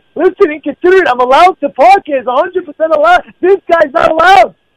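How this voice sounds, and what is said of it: Louder, raised angry voice. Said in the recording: “my voice is going a little bit louder now”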